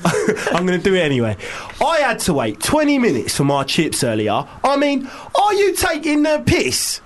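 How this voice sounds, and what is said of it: Put-on Cockney accent. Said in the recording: “Should we do this in the Cockney accent?”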